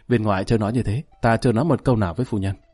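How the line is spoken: Sighing. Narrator (Vietnamese): Lý Kỳ ... thở dài

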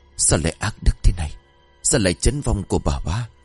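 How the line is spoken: Startled mutter. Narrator (Vietnamese): thẳng thốt rồi lẩm bẩm

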